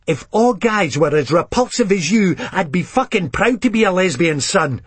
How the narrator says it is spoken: shouts back

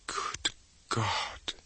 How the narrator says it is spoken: she whispered

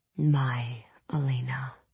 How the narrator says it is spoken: he said softly

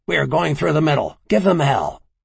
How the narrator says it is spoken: He snarled

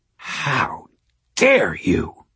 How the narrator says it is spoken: Madeline snarled

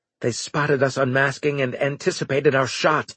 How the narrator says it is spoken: Engels growled

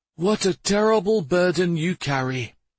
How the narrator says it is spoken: he sighed

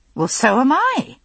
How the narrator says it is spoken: I said impatiently

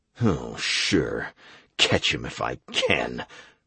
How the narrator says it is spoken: I muttered

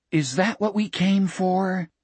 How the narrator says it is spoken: Richard whispered

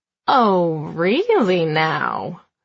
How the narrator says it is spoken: She says, her voice dripping with innuendo of the sexual kind

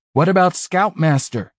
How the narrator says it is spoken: Max shouted back

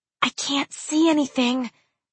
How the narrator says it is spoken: she whispered

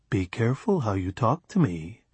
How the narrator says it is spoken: Gino said gently

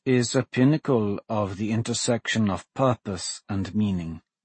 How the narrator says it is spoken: Cassander said softly, as if to himself

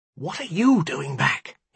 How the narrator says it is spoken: he hissed

